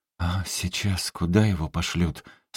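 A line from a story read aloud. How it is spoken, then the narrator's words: Trembling question. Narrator (Russian): спросила дрогнувшим голосом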